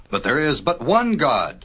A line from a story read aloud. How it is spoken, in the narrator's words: cried Noah